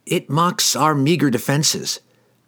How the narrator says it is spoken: Glensather cried

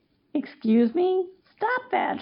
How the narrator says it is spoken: Shayla exclaimed

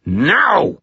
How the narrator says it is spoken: I snarled

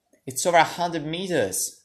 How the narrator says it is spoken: Sadie cried

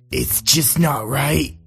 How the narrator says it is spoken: John murmured

